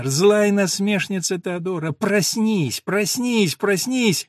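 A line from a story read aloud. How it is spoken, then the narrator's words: Laughing. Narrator (Russian): засмеялась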